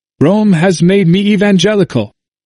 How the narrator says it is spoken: The priest of Mainfeld, having returned from Rome, whither he had gone in his irritation at the progress of the gospel, exclaimed

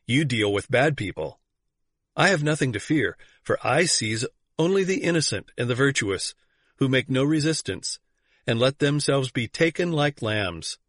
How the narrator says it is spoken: answered Tittleman, laughing

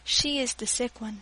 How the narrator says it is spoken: he added softly

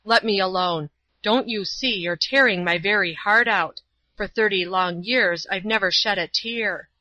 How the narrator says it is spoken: exclaiming

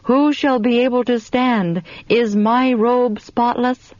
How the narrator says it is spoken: we all cried out

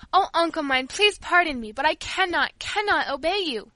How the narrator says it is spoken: she cried suddenly

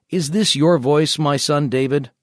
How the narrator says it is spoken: Saul lifted up his voice and wept

